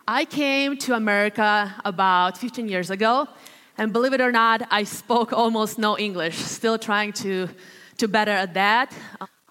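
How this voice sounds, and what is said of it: Latvian accent. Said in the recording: “I'm originally from the country of Latvia. That's where you hear that accent coming out.”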